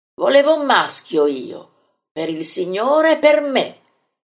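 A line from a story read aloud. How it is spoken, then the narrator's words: Resentful exclamation. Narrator (Italian): esclama risentito Filippo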